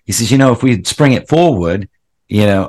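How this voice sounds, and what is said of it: Put-on Australian accent. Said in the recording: “why am I doing a, an Australian accent?”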